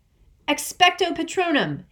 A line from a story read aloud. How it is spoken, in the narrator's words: Harry yelled